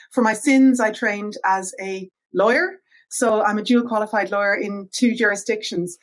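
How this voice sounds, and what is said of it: Irish accent. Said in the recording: “as you can probably hear from my accent, I'm originally from Ireland.”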